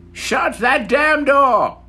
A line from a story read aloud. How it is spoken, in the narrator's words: she'd yell